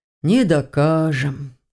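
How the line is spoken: Agreeing sigh. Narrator (Russian): согласно вздохнул привратник

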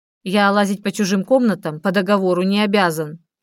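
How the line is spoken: Snapping retort. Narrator (Russian): огрызнулся

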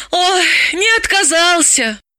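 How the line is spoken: Breathless exhale. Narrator (Russian): выдохнула Далила

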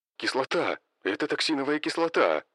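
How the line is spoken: Soldiers' terrified shouting. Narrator (Russian): Прокричали бойцы с ужасом в голосе

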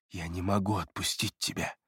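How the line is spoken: Whisper. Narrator (Russian): прошептал Эриас

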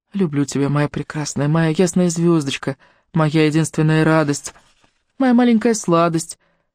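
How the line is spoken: Soft singing. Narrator (Russian): Леони тихонько напевая

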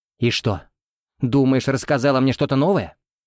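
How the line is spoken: Snapped back. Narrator (Russian): огрызнулся Артем

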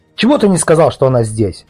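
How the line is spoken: Sharp address. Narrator (Russian): Резко обратился он к Велесову

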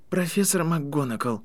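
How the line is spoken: Trembling voice. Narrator (Russian): начал Гарри дрожащим голосом

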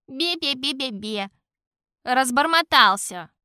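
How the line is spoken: King's scornful snort. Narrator (Russian): Фыркнул король Шут

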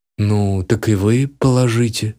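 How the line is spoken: Calm. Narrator (Russian): спокойно произнес я

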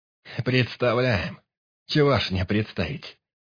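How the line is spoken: Scoffing snort. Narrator (Russian): хмыкнул Бек

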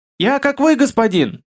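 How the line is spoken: Hurried squeak. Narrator (Russian): Торопливо пискнул интеллект

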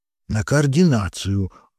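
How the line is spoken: Curt grunt. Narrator (Russian): буркнул Вася

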